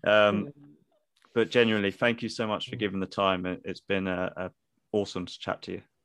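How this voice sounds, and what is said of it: Velvety accent. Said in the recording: “your velvety accent”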